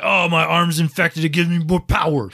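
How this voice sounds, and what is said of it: Arnold Schwarzenegger impression. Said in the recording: “That was a great impression... his arm kind of sounds like Arnold”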